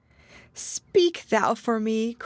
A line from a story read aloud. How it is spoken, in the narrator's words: cried she